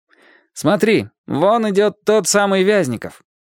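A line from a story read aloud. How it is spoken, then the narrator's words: Loud, unceremonious. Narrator (Russian): Лесь сказал это громко и бесцеремонно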